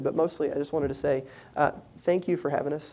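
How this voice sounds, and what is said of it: Southern American accent. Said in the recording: “that is a lot of my Southern accent.”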